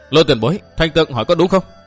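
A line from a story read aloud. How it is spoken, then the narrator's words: Stern question. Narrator (Vietnamese): Thành Tường nghiêm giọng hỏi tiếp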